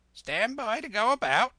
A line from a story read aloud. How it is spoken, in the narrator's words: the parrot would scream